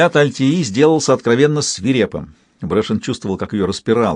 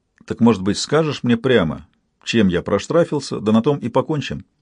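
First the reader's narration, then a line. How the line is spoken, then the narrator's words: Forced even, stony voice. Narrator (Russian): Кое-как он напустил на себя каменный вид и продолжал ровным голосом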